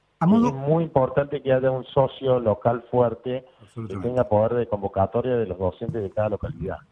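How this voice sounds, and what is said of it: Argentine Córdoba regional accent. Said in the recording (Spanish): “estamos ubicados en Córdoba, como ya se han dado cuenta por mi acento”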